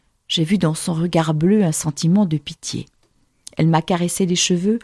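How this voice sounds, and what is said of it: Usual voice. Nothing is said of it.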